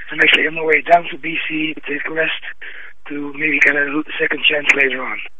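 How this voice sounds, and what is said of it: Sick, strained voice. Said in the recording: “as you can hear by my voice, I had problems with my health”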